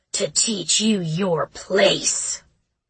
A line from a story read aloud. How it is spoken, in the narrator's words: the tattooed man replied, his voice as scratchy as his companion's beard